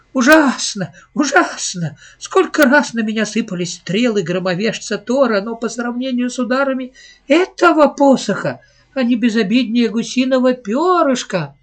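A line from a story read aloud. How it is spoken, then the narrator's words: Laughing boy. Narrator (Russian): Мальчик рассмеялся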